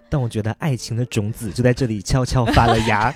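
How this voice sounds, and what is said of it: Put-on Taiwanese Mandarin accent. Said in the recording (Chinese): “怎么突然变了？ ... 台湾腔是怎么回事”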